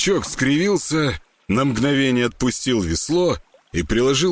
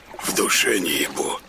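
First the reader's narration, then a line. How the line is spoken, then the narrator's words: Raspy smoker's whisper. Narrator (Russian): отозвался тот прокуренным шепотом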